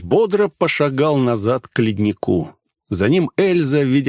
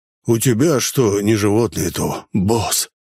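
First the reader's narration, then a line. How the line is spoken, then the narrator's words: Sigh. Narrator (Russian): вздохнул мошенник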